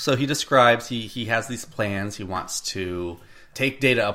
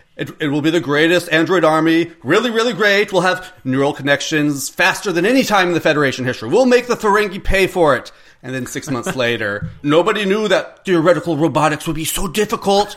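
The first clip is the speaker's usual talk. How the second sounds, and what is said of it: Imitates another person's voice. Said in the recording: “I've been practicing my impression. ... It usually comes out like JFK. ... It's not Trump.”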